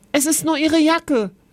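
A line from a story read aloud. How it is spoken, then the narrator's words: Called out. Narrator (German): rief Kevin Oskar zu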